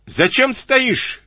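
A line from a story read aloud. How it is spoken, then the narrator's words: Heated shout. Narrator (Russian): крикнул запальчиво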